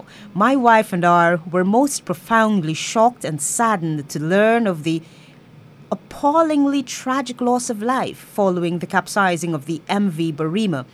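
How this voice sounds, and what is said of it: Put-on British voice. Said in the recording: “imagine me in my British voice now”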